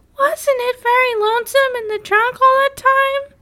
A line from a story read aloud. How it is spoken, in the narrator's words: Susan asked in her queer little cracked voice